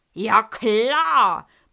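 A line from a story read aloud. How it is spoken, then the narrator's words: Wild lion roaring. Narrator (German): brüllt der wilde Löwe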